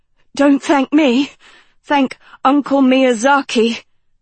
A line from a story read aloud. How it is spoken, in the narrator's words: Dot panted, smiling